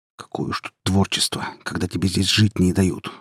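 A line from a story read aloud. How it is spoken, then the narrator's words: Muttering under breath. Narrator (Russian): буркнул он себе под нос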